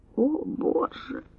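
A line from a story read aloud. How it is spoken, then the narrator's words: Moan from behind. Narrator (Russian): простонал у нее за спиной Скарджелл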